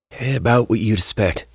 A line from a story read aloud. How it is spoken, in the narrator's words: Henry said in a sigh